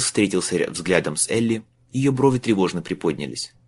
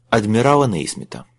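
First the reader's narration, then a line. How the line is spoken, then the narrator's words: Calm. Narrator (Russian): спокойно закончил Майлз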